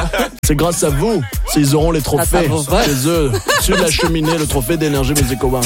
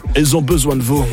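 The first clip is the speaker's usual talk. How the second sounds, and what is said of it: Imitates another person's voice, added accent. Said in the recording (French): “le dire comme Nikos ... T'as rajouté un accent.”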